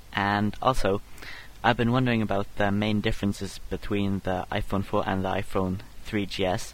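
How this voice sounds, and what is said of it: Norwegian accent. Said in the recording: “I love his accent. ... I don't think I've ever heard a Norwegian accent before.”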